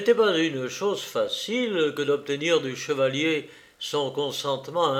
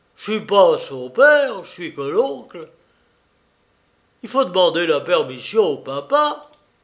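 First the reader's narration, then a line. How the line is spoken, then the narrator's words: Exclaimed after a pause. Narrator (French): s'écria-t-il après quelques moments de réflexion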